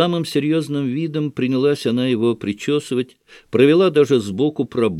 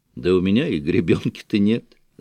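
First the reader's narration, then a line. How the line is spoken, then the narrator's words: Laughing. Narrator (Russian): засмеялся Шатов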